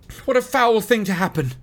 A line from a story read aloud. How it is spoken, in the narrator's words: cried Frodo wildly